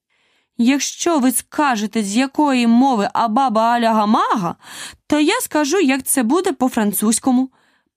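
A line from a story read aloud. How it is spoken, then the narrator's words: Triumphant exclamation. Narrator (Ukrainian): переможно вигукнула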